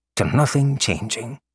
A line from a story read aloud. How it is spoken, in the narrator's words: muttered, amused